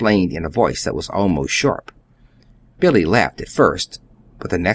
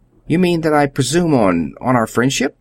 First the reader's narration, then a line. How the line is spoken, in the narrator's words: stammered